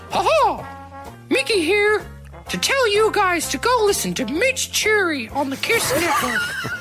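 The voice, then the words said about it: Mickey Mouse cartoon voice impression. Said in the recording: “my best impression of Mickey Mouse”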